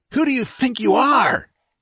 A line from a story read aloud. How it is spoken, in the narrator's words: gasped the captain